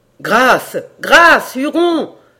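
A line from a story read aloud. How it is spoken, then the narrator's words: Horrified, choked cry from above. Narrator (French): s'écria d'en haut la voix d'Hayward, à qui l'horreur ôtait presque la parole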